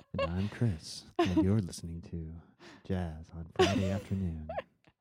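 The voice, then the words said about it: Mellow public-radio announcer voice. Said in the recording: “my NPR voice”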